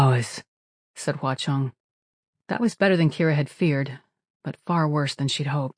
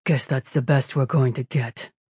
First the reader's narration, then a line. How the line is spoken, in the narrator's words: The machine boss seemed unconvinced, but she grunted and said